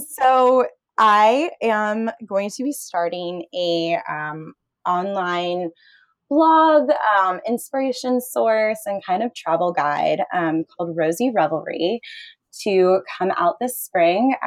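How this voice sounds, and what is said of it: Excited, animated voice. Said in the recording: “you can tell by my voice, I'm really excited about it”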